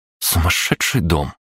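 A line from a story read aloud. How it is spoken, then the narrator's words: Muttered by a woman. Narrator (Russian): пробормотала Кристина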